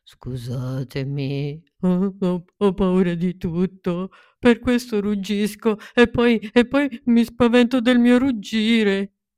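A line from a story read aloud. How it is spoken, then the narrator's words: Sobbing. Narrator (Italian): Un leone enorme scoppiò a piangere e singhiozzò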